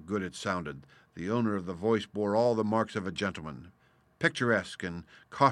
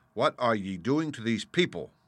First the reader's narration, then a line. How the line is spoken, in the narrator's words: said sharply to the peasants